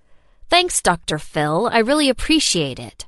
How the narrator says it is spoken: I snapped

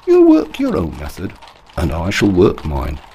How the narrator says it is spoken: answered Holmes calmly

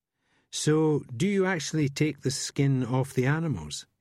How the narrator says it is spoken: he asks

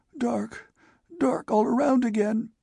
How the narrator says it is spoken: protested the croak

